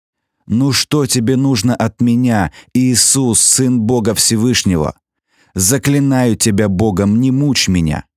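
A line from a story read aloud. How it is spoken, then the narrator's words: Loud shout. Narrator (Russian): громко закричал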